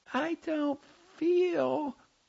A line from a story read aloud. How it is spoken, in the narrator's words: She breathed shallowly and whispered in a high, artificial voice